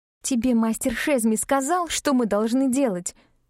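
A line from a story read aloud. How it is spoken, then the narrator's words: Angrily through gritted teeth. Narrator (Russian): процедила я зло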